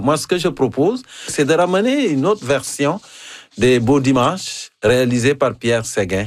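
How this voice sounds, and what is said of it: African-accented French. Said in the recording (French): “Je n'ai pas la diction de Henri Bergeron, je ne viens pas du Manitoba ... mon accent africain ... C'est encore plus savoureux avec ton accent africain”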